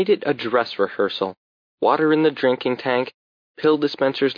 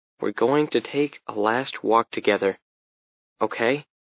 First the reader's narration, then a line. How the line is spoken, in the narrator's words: said softly